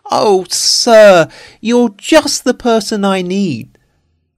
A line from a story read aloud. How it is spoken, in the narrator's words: the little man cried